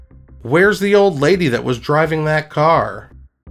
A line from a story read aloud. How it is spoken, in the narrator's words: the man yelled out to him